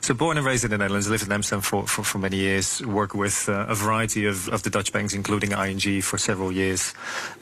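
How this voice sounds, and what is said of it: Slight Dutch accent. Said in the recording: “You can probably still hear some of the accent”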